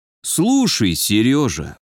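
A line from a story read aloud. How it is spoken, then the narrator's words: Almost tender. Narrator (Russian): почти ласково проговорил майор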